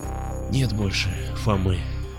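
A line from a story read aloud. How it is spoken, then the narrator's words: Barely audible whisper. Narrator (Russian): еле слышно прошептал я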